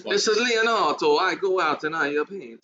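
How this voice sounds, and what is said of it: Put-on Italian accent. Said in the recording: “Give us your Italian accent again. Your Italian ... The Italian accent? ... You want my Leonardo accent? ... That's not bad. That's terrible.”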